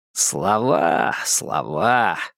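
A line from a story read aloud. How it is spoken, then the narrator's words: Scoffing snort. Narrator (Russian): хмыкнул Кнопфер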